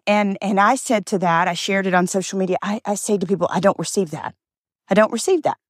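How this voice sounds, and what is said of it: Nervous, keyed-up voice. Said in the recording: “you can hear it in my voice, good nerves”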